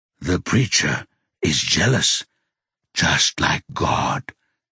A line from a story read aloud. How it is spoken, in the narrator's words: he whispers